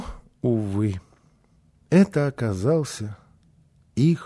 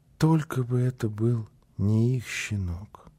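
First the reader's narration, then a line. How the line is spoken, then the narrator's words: Whisper. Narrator (Russian): шептал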